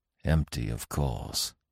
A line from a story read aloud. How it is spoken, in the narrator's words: he muttered